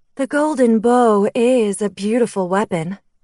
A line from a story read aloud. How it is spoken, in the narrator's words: the female purred